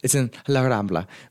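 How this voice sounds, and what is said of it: Spanish pronunciation of place name. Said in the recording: “I know I did it with the accent, right? It's annoying. But I had to.”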